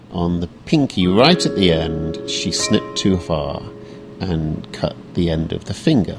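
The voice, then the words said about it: British accent. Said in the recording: “He's got a British accent, but he's lived here in the U.S. for the past 2 decades.”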